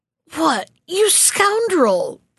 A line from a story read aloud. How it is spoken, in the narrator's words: they cried at last